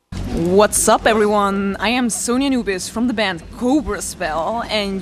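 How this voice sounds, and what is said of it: Accented English speech. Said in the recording (French): “j'adore cet accent.”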